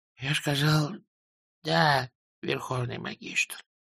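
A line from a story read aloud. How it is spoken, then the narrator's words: Whisper. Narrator (Russian): прошептал тот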